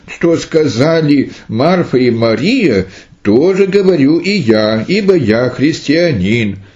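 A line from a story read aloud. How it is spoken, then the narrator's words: Young boy exclaiming. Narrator (Russian): малый отрок, брат мучениц по имени Ликарион, воскликнул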